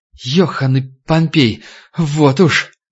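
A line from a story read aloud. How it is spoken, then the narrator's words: Trembling, stuttering inner voice. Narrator (Russian): Даже мысленно голос у Егорова дрожал и заикался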